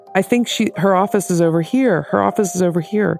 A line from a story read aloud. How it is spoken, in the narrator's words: someone who yelled